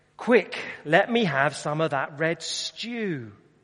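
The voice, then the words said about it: Put-on East End London accent. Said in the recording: “in his East End accent”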